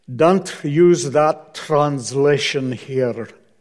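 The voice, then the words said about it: Poor put-on Scottish accent. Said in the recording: “my horrible Scottish accent”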